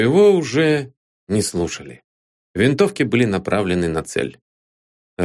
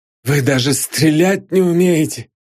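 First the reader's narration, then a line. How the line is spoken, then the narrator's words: Wheezing. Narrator (Russian): прохрипел поручик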